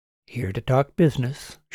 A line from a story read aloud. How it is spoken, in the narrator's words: she said flatly